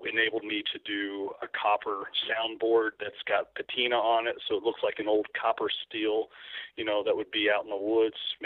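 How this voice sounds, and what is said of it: Kentucky accent on one word. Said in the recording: “I just let my Kentucky accent come out there in the word steel.”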